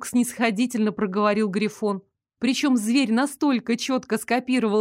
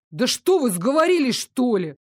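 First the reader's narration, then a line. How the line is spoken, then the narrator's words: Offended wail. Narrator (Russian): Обиженно взвыл Дарок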